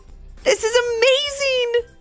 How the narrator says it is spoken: exclaimed Levi and Ivy

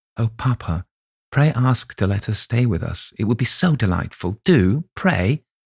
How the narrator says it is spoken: whispered earnestly in his ear

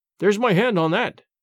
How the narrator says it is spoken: cried James, for all the world as if he had really known my name and was foregoing some advantage

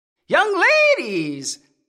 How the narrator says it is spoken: the old man called in a shrill, cracked voice

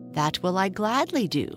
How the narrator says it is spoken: said Joyful eagerly

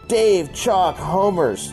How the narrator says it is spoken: Jeff yelled

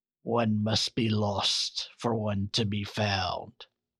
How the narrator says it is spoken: she growled

